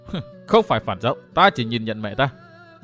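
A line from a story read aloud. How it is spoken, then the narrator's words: Cold faint laugh. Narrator (Vietnamese): Phan Ngọc Anh cười nhạt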